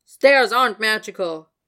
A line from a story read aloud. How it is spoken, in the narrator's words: he snapped